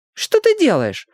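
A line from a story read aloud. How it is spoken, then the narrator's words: Shrill squeal. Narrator (Russian): взвизгнула одна из подружек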